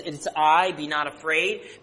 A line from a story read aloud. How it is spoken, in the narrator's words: Peter says